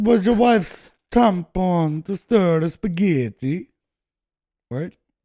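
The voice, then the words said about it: Put-on Italian accent. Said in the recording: “That was my Italian impersonation.”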